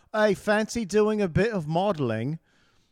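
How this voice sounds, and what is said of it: Put-on English accent. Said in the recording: “he's in his English accent”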